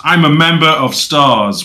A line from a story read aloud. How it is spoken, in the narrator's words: yelling